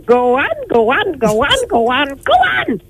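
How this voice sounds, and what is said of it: Mrs. Doyle character voice, hen-like. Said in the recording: “your inner Mrs. Doyle ... So Mrs. Doyle ... I sounded like a hen there at the end”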